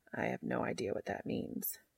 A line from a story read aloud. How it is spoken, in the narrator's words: Castiel murmurs